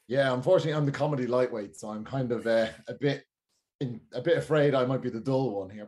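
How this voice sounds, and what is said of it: Noticeable non-local accent. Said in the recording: “you've got such a lovely accent ... here everybody thinks it's exotic”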